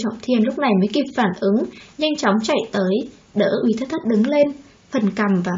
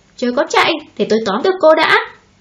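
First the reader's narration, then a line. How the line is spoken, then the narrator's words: Irritated shout. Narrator (Vietnamese): Uy Tất Thất cáu tiết quát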